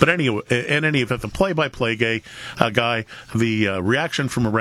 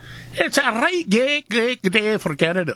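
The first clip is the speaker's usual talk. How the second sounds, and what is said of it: Weak put-on Scottish accent. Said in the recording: “I love the Scottish accent. ... That's not very good.”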